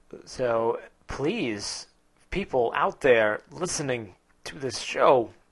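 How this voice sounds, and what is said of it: Christopher Walken impression. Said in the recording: “doing a Christopher Walken impression”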